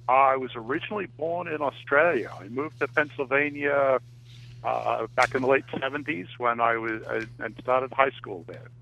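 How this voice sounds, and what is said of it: Australian accent. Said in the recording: “I love your accent. ... It just sounds real cool. ... You're probably the first Aussie we've had on the show.”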